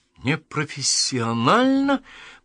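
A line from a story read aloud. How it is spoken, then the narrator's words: Hissing. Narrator (Russian): прошипел он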